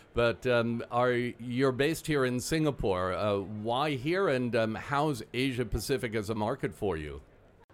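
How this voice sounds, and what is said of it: American-Australian accent. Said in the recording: “I've clearly got an American-Australian accent, as everyone can tell”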